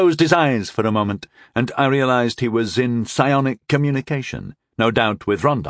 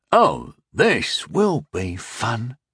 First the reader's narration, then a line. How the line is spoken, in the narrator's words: Tyndall whispered